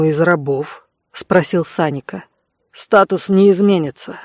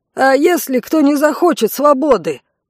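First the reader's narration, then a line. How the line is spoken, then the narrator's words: Shout from a crowd. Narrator (Russian): выкрикнул кто-то из толпы рабов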